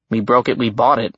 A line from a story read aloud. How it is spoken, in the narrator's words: I muttered